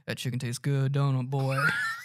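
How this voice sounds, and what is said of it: Put-on Southern US accent. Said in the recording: “that southern accent”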